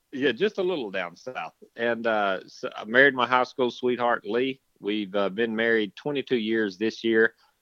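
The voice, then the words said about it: Slight southern US accent. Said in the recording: “as you will all hear, a little bit of a southern accent.”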